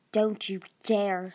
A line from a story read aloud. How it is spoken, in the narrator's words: snarled the queen